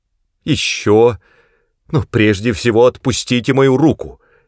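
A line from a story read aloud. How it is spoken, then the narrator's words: Shouted. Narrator (Russian): крикнула она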